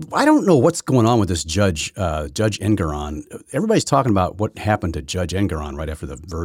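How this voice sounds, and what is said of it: Usual voice. Nothing is said of it.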